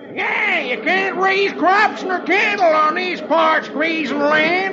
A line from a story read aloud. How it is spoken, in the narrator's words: another hollers